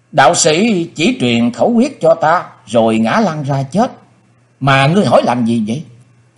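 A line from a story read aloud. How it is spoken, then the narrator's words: Mournful sighing. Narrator (Vietnamese): Người bịt mặt thở dài não nuột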